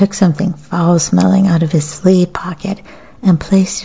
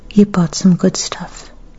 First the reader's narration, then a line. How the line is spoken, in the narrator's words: Kikuko said in a gentle voice that didn't betray any emotion